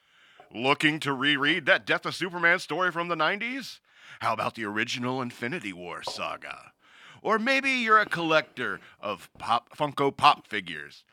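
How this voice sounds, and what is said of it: Announcer voice. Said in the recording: “Can I use my announcer voice?”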